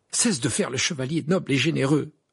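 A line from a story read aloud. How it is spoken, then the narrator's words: Irritated retort. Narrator (French): répliqua Harry d'un ton irrité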